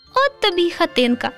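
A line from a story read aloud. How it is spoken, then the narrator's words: Laughing little redhead. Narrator (Ukrainian): засміялося руденьке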